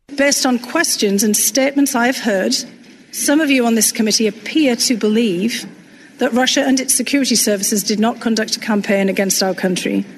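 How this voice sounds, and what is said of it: British accent. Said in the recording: “her sort of funky British accent”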